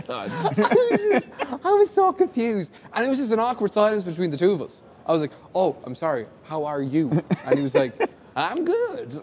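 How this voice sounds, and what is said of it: Thick Irish accent from Wicklow. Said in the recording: “Wicklow. ... My side is very thick, kind of. ... an American who really cannot understand my accent”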